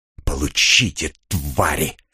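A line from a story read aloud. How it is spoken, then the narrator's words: Hissing. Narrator (Russian): прошипел Кир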